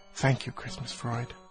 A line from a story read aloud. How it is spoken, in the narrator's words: snifflingly and meaningfully whispering